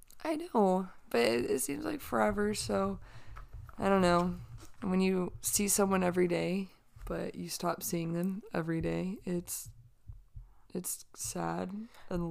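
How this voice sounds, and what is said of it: Squeaky, strained, nearly lost voice. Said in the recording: “my squeaky voice ... I just lost my voice”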